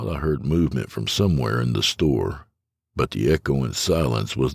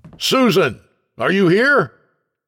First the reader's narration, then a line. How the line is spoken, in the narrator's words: Then when I realized no other customers were likely there to offend, I shouted